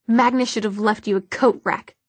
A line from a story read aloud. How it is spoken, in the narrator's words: Clary spat